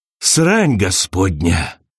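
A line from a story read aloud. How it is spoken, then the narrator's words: Breathless exhale. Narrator (Russian): выдохнул он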